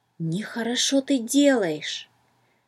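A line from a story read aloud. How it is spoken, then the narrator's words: Whisper in the ear. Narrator (Russian): словно шепнул кто-то на ухо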